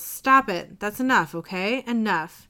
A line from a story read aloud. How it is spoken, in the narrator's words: Sam yells